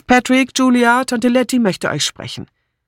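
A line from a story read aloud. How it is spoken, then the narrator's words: Called out. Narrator (German): rief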